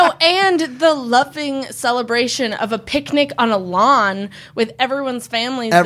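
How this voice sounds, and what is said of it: Usual voice. Nothing is said of it.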